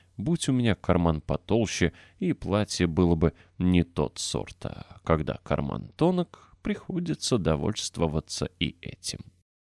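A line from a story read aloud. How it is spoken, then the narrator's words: Muttering to himself. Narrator (Russian): бормоча себе под нос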